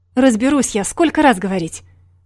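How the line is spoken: Indignant shouting into phone. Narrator (Russian): Возмущенно кричал тот в трубку

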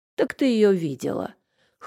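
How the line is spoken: Snorting. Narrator (Russian): хмыкнул

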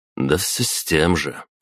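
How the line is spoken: Smirking grunt. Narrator (Russian): хмыкнул я

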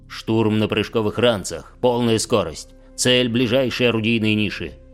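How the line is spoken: Barked command. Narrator (Russian): рявкнул Сигизмунд

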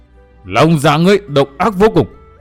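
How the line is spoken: Roaring. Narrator (Vietnamese): Ngũ Diện Diêm La gầm rống một tiếng

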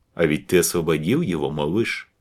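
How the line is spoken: Plain. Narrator (Russian): сказал маэстро Карл

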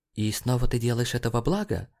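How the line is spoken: Muttered. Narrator (Russian): Пробормотала она

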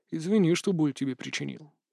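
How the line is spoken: Quiet. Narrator (Russian): тихо проговорил он

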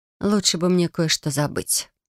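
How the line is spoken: Sigh while getting up. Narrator (Russian): вздохнула, поднимаясь с кровати

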